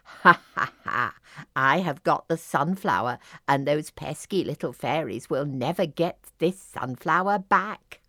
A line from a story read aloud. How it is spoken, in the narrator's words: The evil Cranberry cackled